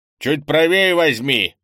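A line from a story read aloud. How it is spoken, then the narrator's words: Stern old man. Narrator (Russian): строго сказал старый Лун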